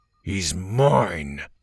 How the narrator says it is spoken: Gavin growled

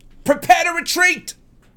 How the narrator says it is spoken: Jackson hollers

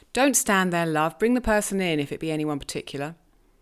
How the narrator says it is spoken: he exclaimed quickly

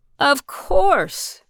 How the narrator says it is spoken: Bill exclaimed

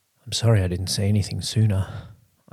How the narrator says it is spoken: panted, chest heaving

